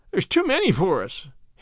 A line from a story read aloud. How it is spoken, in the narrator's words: whimpered